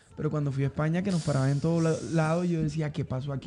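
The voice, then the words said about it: Dominican Spanish accent. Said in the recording (Spanish): “el acento de ... no es de acá ... Es dominicano.”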